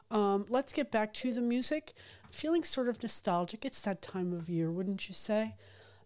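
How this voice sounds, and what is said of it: Hoarse, strained voice. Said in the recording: “I'm still losing my voice.”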